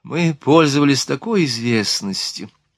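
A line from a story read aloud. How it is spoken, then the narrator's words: Sighing woman. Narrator (Russian): вздохнула мадам Бюрсе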